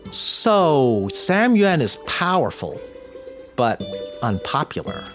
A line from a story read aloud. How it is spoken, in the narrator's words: said slowly